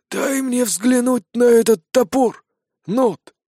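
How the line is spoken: Hoarse voice. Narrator (Russian): послышался сиплый голос

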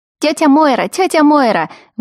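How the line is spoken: Children yelling. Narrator (Russian): вопили близнецы

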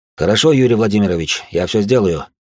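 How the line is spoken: Plain. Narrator (Russian): ответил первый заместитель

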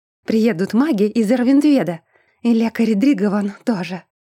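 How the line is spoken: Exclaiming. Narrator (Russian): воскликнула

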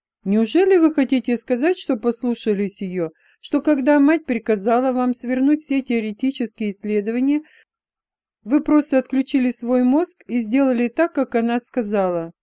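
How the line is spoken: Giggling. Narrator (Russian): Элла хихикнула

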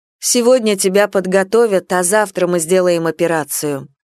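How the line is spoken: Stern and gloomy. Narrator (Russian): строго и хмуро произнесла

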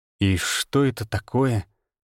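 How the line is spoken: Surprised drawl. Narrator (Russian): Удивленно протянул я

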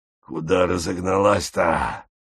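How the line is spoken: Wheezing voice. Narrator (Russian): просипел чей-то голос

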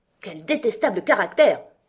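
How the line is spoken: Queen exclaiming. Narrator (French): s'exclama la reine rouge

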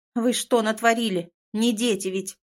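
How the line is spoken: Shouting familiar voice. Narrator (Russian): кричал до боли знакомый голос

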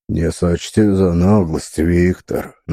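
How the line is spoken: Deep bass, informal. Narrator (Russian): начал басом, перейдя на неформальный лад общения

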